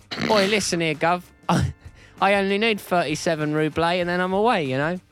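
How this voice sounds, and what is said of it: Put-on Cockney accent. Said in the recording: “a sort of adorable Cockney accent ... just does the Pete and Dud thing”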